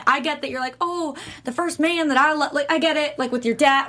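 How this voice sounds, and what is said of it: Put-on Southern accent. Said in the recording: “I don't know why I got a Southern accent. Maybe I'm getting really into that.”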